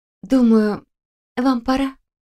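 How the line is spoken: Soft. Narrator (Russian): мягко сообщила Мария

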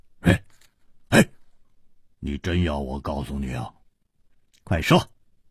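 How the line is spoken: Laughing. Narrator (Chinese): 胡铁花笑着说

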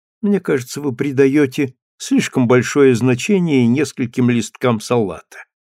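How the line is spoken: Carefree tone. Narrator (Russian): беспечным тоном сказала она

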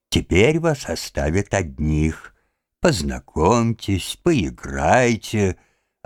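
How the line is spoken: Joyful. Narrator (Russian): радостно сказал Лужин-старший

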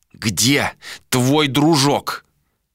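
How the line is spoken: Through gritted teeth. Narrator (Russian): Сквозь зубы процедил Адер

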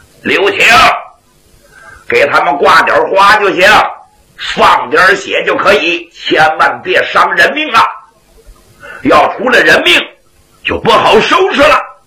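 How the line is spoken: Monks shouting from behind. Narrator (Chinese): 二位圣僧在后边直喊

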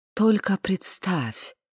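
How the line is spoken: Reverent whisper. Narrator (Russian): благоговейно прошептал Ханс Георг

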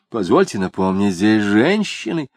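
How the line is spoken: Offended woman declaring. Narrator (Russian): обиженно заявила толстая дама

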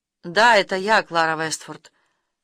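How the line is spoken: Completely calm. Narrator (Russian): сказал он совершенно спокойно

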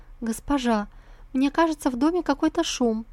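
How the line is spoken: Trembling voice, maid. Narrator (Russian): дрожащим голосом проговорила служанка

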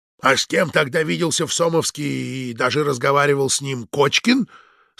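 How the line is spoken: Plain. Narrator (Russian): спросил начальник сыскной

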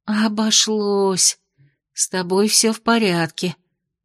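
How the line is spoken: Incoherent muttering. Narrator (Russian): бессвязно бормотала девушка

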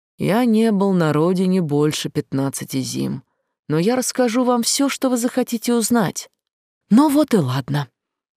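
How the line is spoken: Uncertain reply. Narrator (Russian): как-то неуверенно ответил

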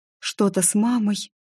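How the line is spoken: Whisper. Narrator (Russian): прошептала я

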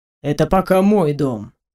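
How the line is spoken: Calm retort. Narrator (Russian): спокойно парировал мужчина

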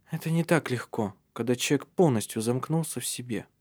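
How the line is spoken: Quiet, defensive. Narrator (Russian): тихо произнесла она в свою защиту

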